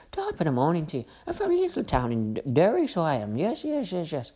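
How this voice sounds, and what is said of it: Bad put-on Irish accent. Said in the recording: “she does an Irish accent. She thinks it's a fucking Irish accent.”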